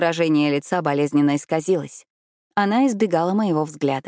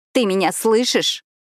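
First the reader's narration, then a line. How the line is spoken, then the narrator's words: Shouting. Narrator (Russian): крикнула я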